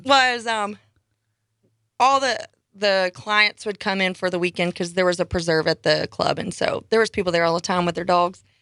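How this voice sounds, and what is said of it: Non-local accent. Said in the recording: “I don't think people mistake you for a local, though, do they? Because ... with that accent.”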